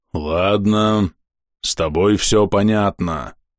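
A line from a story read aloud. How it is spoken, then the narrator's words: Deep bass voice. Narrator (Russian): пробасил кузнец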